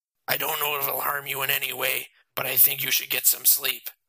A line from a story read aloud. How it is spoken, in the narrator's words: Matt said